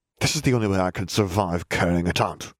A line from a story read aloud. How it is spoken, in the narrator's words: Malfoy spat